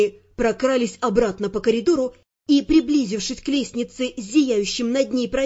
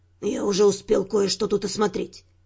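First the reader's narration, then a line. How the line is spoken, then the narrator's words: Whispered. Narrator (Russian): шепнул Дюран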